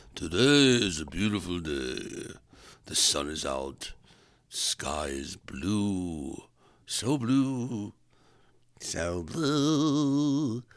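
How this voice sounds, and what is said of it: Deliberately lowered, deeper voice. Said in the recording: “Maybe I should talk in a lower voice.”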